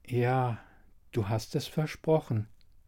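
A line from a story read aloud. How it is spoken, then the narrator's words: Said softly. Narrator (German): sagte Dunja leise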